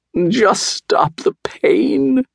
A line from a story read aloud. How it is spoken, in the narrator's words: whimpered the fox